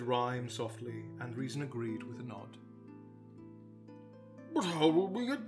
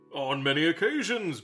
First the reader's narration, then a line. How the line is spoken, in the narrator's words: barked Tok